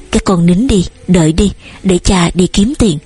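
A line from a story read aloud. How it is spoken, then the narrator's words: Trembling cold hungry voice. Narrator (Vietnamese): Văn run rẩy, phần vì gió lạnh, phần vì đói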